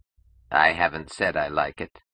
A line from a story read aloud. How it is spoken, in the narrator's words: Vogler answered coldly